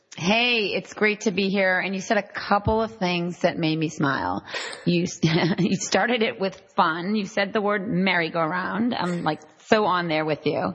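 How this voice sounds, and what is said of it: Boston accent. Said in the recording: “wicked smart. Cause this, you're talking to a Boston East Coast gal over here. ... I miss the accent.”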